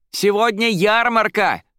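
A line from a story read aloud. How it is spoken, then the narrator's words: Joyful shout. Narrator (Russian): радостно прокричала Фелла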